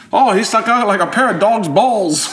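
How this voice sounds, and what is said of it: Put-on Australian accent. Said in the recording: “There's not an Australian accent yet... I'm getting into character.”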